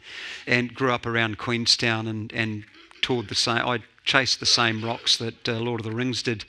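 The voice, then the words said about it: New Zealand accent. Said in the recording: “a little old kid from Dunedin, New Zealand. That's why I've got an accent.”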